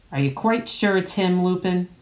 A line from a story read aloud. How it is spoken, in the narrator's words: he growled